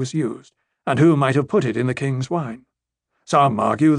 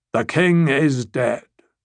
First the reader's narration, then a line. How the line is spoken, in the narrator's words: the sea snake announced gravely